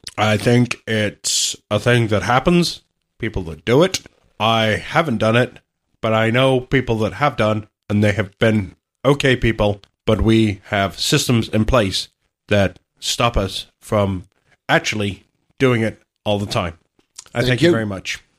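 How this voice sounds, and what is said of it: Imitates another person's halting, pausing delivery. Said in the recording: “bad Obama impression ... It's all about stopping every couple of words and pausing”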